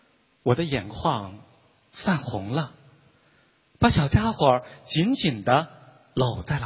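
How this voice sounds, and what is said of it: Usual voice. Nothing is said of it.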